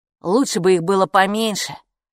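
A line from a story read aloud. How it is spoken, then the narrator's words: Grumbling. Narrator (Russian): проворчал Капо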